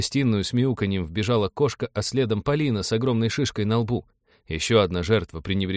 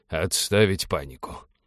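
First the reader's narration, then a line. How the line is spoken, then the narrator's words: Muttering. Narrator (Russian): пробормотал он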